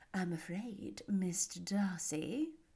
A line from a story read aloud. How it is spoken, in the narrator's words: observed Miss Bingley in a half whisper